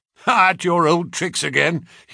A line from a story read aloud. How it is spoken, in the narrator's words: he laughed